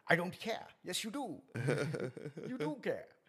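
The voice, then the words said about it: Imitates another person's voice. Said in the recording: “my Richard Burton impersonation ... Richard Harris”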